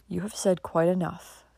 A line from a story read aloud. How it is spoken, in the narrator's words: continued Dick calmly